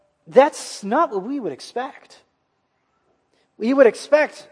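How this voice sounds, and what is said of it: Usual voice. Nothing is said of it.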